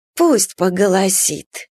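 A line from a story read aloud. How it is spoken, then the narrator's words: Calm. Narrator (Russian): спокойно отвечала Марфа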